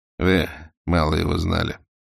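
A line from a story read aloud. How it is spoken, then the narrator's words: Even, uncharacteristic voice. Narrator (Russian): ровным голосом ответил непохожий на себя Романов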